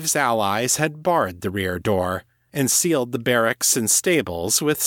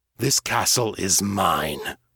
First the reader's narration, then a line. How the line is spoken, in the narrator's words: Steve growled